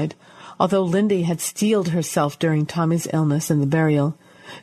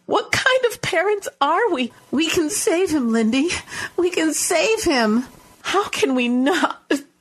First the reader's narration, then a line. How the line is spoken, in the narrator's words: She choked on the final word and sobbed into her hands